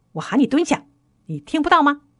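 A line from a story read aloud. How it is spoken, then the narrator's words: Angry roar. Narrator (Chinese): 她怒吼道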